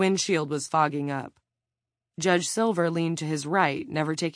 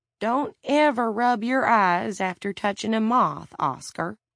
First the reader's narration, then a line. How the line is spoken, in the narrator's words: she had said